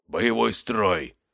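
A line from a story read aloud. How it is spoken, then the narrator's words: Barked command. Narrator (Russian): рявкнул Максимус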